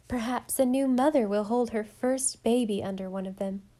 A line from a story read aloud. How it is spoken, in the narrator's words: said Anne